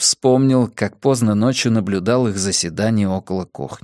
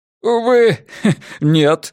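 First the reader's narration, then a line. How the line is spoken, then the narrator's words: Laughing. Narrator (Russian): Форд снова рассмеялся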